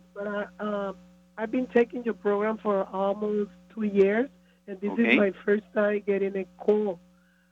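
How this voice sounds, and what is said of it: Hoarse, strained voice. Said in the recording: “sorry for my voice ... laryngitis”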